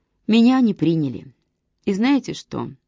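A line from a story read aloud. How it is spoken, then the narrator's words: Quiet, weary sigh. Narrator (Russian): негромко добавила она и устало вздохнула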